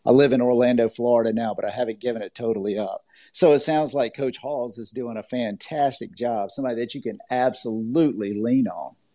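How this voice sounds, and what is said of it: Slight Southern US accent. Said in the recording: “I am originally from Georgia. I have a little bit of a Southern accent”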